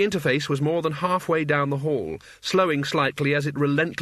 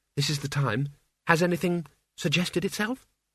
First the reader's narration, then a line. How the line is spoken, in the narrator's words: she said quietly